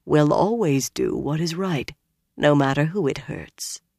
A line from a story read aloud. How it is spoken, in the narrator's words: Min murmured